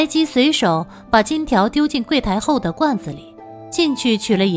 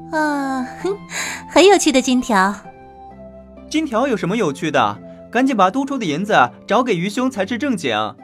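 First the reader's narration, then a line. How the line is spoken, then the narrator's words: Amused laughing. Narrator (Chinese): 白姬笑了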